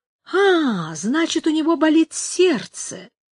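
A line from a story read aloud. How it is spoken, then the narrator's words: Pleased tone. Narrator (Russian): сказала она довольным тоном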